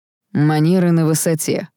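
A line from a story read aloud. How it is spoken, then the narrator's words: Wry snort. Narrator (Russian): хмыкнул Даррел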